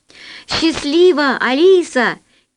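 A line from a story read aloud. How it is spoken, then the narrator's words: Shout from below. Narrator (Russian): крикнул снизу Алёша Наумов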